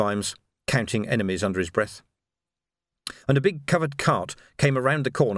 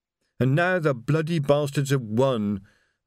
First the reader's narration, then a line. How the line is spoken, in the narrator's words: moaned Reg